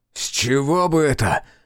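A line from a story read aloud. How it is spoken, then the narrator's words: Barking. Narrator (Russian): рявкнул Олегу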